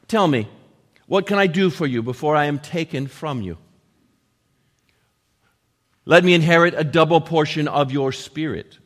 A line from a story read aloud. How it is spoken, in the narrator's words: Elisha replied